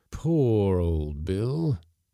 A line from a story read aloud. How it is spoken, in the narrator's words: exclaimed mournfully